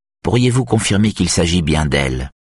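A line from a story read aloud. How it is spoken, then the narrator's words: Curt question. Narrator (French): demande l'aiguille d'un ton bref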